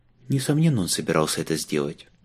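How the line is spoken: Sighing. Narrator (Russian): вздохнула Батари Джезек

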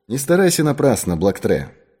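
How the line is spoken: Calm. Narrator (Russian): спокойно сказал Пинкертон

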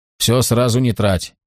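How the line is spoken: Condescending male chuckle. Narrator (Russian): хохотнул он, точно карманные деньги вручал

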